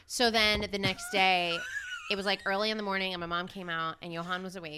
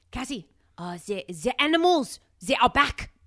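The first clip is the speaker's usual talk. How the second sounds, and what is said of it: Put-on French accent, sounds German. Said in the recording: “in like a very French accent, which I'm going to do ... That was German maybe ... That was a little bit German.”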